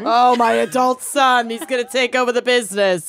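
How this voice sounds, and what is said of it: Put-on Brooklyn grandmother accent. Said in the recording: “Brooklyn grandmother accent, but it's my go-to”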